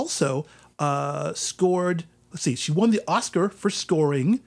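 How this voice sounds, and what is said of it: Usual voice. Nothing is said of it.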